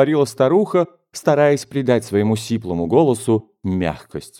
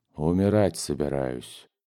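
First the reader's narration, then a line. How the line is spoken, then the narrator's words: Sick man's mocking mumble. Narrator (Russian): пробормотал больной, скривив насмешливо рот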